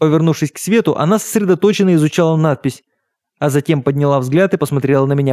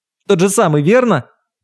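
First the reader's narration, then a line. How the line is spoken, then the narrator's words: Shouted. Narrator (Russian): выкрикнул я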